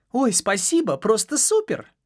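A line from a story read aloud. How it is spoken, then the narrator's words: Gloating, smirking exclamation. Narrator (Russian): воскликнула Элла, злорадно ухмыльнувшись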